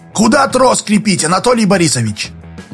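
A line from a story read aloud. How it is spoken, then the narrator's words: Shouted. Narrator (Russian): Дауга крикнул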